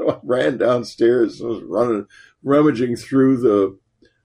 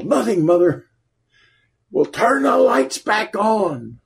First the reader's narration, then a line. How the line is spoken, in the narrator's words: yelled